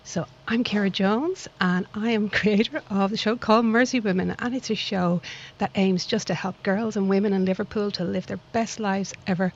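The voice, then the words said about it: Dublin Irish accent. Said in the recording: “my little accent doesn't come from this lovely town of Liverpool, but I like to think it comes from an equally lovely town called Dublin across the water”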